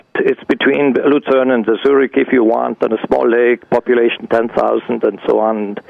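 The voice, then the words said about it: Non-native English accent. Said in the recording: “With my limited English ... my accent”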